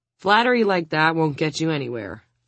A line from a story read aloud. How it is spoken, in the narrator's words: Audrey says